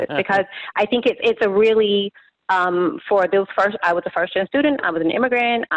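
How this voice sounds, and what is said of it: Emotional, wavering voice. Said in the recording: “you can hear my voice getting a little bit, I'm getting emotional”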